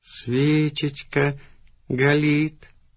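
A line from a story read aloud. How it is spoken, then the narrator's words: Rapturous drawl. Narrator (Russian): с упоением протянул ты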